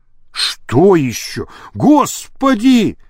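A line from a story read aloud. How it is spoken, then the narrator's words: Moaning. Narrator (Russian): простонал Кокшаров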